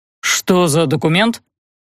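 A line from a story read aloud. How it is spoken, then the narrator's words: Two irritated voices together. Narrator (Russian): Геля и Эльдар спросили одновременно, и оба раздраженно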